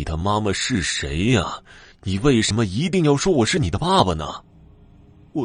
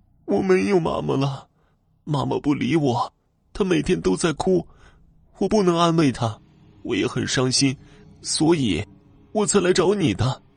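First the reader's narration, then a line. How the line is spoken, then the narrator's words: Girl bursting into tears. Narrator (Chinese): 女孩哇的一声哭了起来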